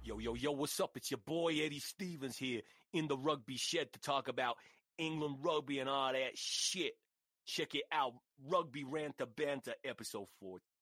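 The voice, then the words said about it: Deliberately bad put-on accent. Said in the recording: “That's terrible. I'm doing a terrible black voice.”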